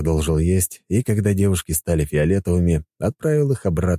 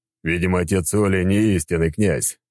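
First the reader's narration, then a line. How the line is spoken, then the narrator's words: Chuckling reply. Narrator (Russian): хохотнул в ответ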